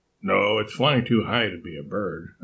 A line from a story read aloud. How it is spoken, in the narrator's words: Alexis said